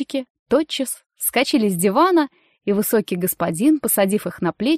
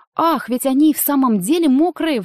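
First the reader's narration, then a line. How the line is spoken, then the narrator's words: Exclaimed. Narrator (Russian): воскликнула миссис Бэр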